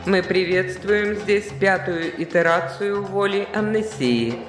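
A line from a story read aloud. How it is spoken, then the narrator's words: Sing-song. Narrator (Russian): нараспев проговорила она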